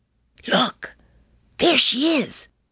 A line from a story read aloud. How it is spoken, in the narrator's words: I whispered